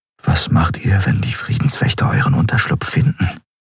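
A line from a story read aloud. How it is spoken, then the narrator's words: Quiet question. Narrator (German): fragte Kai leise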